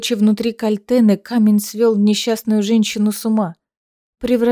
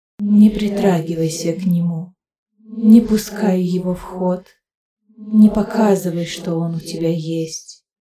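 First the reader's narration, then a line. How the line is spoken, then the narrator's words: Soft ageless whisper. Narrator (Russian): голосок одновременно старый и юный, мудрый и нежный, шептал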